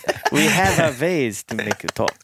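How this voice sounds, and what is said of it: Put-on German accent. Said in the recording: “My Russian usually, it sounds German too. It's kind of a mix ... all I can do is like a German accent ... See, that's German.”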